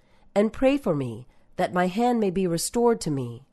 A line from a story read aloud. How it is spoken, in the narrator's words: pleaded